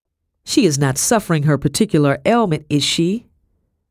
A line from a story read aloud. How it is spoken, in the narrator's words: Madam asked, her voice cutting like a blade